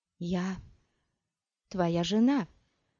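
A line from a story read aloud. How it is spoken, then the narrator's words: Whisper. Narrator (Russian): прошептала Ирулен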